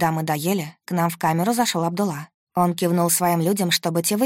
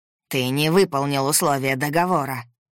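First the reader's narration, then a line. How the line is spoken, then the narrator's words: Growling gang leader. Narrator (Russian): прорычал главарь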